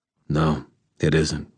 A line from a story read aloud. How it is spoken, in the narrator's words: I said quietly